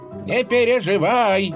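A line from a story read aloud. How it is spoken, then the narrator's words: Calling after someone. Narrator (Russian): крикнул ей вслед Юрий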